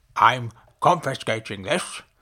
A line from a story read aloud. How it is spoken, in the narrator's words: the man replied sternly